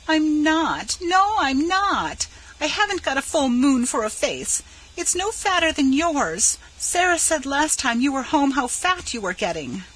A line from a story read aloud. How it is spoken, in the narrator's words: At Laura's brutal statement of the truth, she cried bitterly